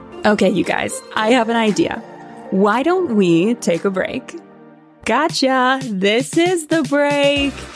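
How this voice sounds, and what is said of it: Put-on sexy voice. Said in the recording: “sexy voice”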